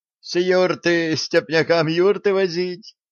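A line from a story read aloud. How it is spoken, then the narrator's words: Laughing. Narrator (Russian): засмеялся торговец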